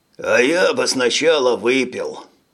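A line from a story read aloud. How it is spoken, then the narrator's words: Sighing. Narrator (Russian): вздохнул Грик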